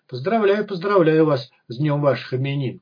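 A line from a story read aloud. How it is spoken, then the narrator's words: Mumbling. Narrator (Russian): пробормотал капитан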